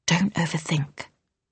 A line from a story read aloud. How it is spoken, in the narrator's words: Flick whispered